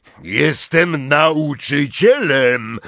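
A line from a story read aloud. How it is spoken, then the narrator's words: Roared. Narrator (Polish): ryknął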